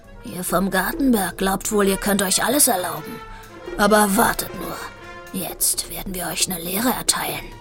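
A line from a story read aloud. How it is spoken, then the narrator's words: Large cat growling. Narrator (German): Ein großer, schwarz-weißer Kater ... knurrte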